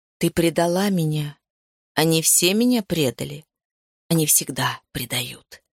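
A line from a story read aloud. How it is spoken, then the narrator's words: Growling. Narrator (Russian): прорычал он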